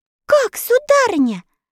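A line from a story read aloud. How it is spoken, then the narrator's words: Frightened exclamation. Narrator (Russian): со страхом воскликнула Элли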